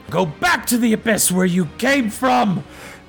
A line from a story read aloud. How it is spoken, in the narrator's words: you yell